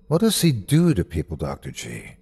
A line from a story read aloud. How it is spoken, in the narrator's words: I asked softly